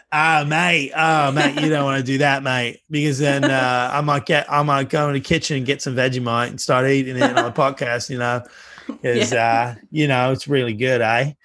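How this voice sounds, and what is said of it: Put-on Australian accent. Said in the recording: “could actually switch accents for the rest of the podcast if you want ... I'll be American and you can be an Aussie.”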